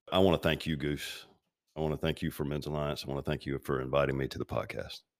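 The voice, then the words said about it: Smooth broadcast-style podcast voice. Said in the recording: “You've got the podcast voice, by the way.”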